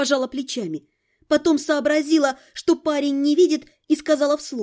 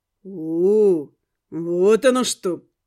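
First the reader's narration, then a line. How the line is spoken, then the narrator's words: Drawn-out drawl. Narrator (Russian): протянул водник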